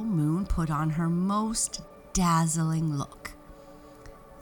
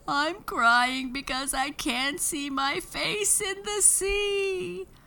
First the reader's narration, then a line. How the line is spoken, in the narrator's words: sobbed Moon